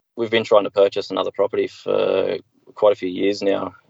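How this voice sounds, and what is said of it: Australian accent. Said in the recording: “cool accent, right? It's fun to have people in Australia.”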